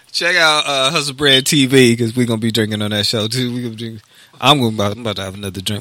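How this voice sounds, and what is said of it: Drunken slurred speech. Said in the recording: “Am I slurring? ... Yeah, bro, you slurring ... I'm slurring”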